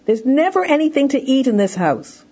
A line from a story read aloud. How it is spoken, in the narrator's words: the child is hungry … shouts out to his mother